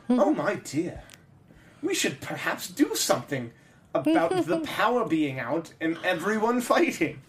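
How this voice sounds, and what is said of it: Put-on old British man voice. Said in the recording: “This is my Court of Owls voice ... That's a really good impersonation there ... because they're an old British guy.”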